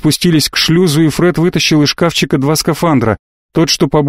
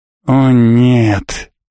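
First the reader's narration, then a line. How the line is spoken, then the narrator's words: Moaning. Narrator (Russian): простонал Фред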